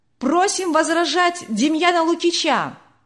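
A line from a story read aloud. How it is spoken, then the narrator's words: Shout from audience. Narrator (Russian): кто-то крикнул из публики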